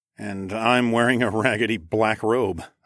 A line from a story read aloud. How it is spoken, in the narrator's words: snorted